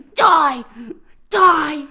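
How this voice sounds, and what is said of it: Imitates another person's voice, yelling. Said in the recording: “he's doing the fucking Corey Feldman ... That's a really good impression. That's really close to what Corey Feldman actually sounds like in that movie.”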